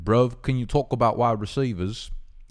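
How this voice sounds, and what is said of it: Put-on English or Australian accent. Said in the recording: “I'm trying to do an English accent ... That was pretty good. Maybe that was an Australian accent.”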